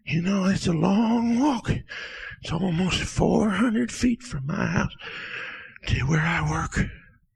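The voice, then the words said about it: Old man, out of breath. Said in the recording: “I'm just a little out of breath.”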